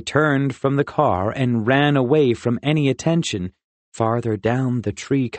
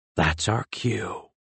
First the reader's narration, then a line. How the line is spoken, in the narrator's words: Rin whispered